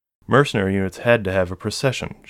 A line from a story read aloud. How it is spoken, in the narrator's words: she'd said